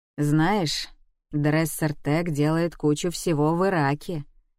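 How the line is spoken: Low voice. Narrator (Russian): низким голосом сказал Гаррисон

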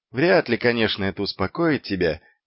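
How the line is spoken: Quiet. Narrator (Russian): тихо промолвил

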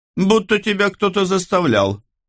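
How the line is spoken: Scoffing snort. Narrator (Russian): хмыкнул Гарольд

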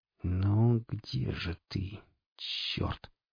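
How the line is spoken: Gritted through teeth. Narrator (Russian): процедил наемник

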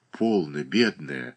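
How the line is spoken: Tender whisper. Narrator (Russian): ласково шептала Прилежаева

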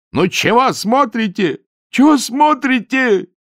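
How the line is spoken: Desperate shout. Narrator (Russian): закричал он отчаянно

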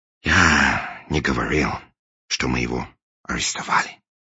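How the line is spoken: Sigh. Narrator (Russian): вздохнул англичанин

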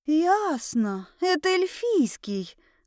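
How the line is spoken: Breathed out. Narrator (Russian): выдохнула я

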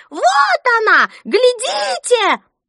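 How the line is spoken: Shrill screech, toothless old woman. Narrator (Russian): одна беззубая, сморщенная, словно печеное яблоко старуха, пронзительно завизжала

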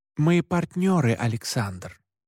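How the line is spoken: Forced calm. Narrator (Russian): как мог спокойно произнес я

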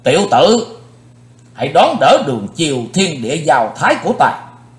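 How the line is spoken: Shouting. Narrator (Vietnamese): Hét

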